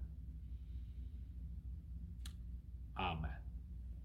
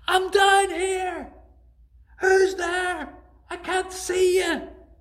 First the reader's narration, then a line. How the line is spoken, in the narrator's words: he cried out again